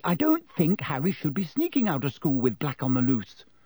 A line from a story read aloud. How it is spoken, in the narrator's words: said Hermione sharply